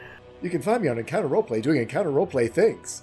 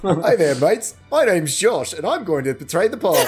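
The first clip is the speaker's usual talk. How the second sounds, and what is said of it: Bad put-on Australian accent. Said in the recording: “Let me do my worst English accent I can possibly manage ... Skipped right into Australian”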